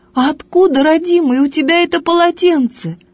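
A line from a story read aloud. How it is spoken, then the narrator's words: Old woman crying out. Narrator (Russian): старушонка вскрикнула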